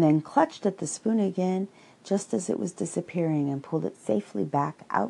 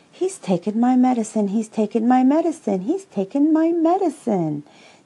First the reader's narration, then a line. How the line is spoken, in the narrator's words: sang Roo happily, thinking it was a tremendous joke